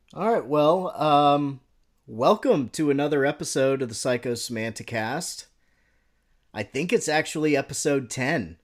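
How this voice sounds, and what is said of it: American accent. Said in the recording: “it sounds sort of hillbilly when I say it with my American accent.”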